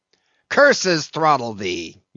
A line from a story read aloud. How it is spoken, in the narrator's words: yelled Ahab